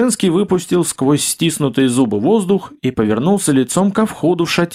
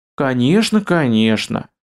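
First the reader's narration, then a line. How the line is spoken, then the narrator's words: Sing-song. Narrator (Russian): Пропела Капа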